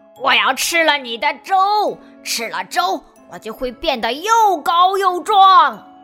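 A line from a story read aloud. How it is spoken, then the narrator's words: Roaring. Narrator (Chinese): 魔鬼熊吼叫着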